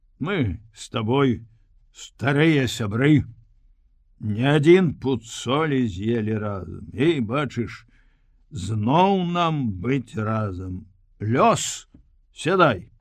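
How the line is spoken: Sigh. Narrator (Belarusian): ён уздыхнуў

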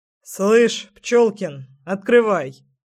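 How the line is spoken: Rather menacing command. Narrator (Russian): скомандовал отец довольно грозно

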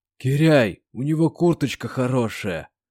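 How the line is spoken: Hoarse young man. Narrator (Russian): хрипло проговорил парень в тренировочном костюме

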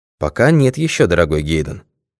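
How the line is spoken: Calm objection. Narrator (Russian): спокойно возразил сыщик

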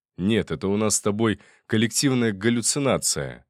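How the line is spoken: Snort. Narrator (Russian): хмыкнул я

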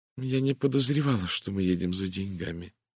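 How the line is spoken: Woman's quiet remark. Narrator (Russian): тихо заметила женщина

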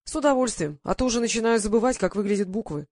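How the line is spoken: Plain. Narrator (Russian): ответил он

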